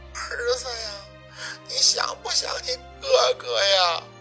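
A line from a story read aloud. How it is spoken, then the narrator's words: Clear, crying woman. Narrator (Chinese): 沈明雅的声音听的是一清二楚，她在哭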